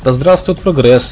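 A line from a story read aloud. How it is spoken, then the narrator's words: Cheerful shout. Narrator (Russian): бодро крикнул Борланд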